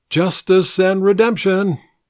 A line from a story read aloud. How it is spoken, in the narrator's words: He ... called out